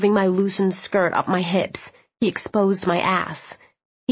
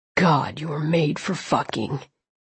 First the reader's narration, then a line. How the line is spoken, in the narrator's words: he said gruffly